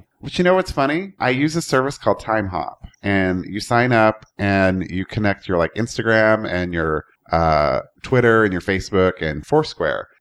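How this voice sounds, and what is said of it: Congested voice from a cold. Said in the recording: “I don't know if you can tell. I have a little bit of a cold or allergies or something.”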